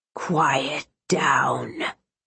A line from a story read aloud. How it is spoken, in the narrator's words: the man told her, his voice seething in a dark, unworldly tone